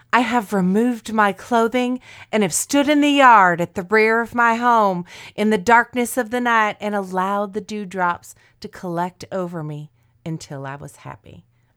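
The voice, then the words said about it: Put-on Southern accent. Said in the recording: “I don't know why she became Southern, because it's the only accent I know.”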